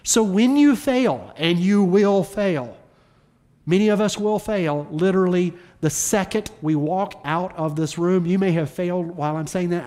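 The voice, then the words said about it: Southern accent on the word fail. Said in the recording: “my southern accent is coming out as I say the word fail”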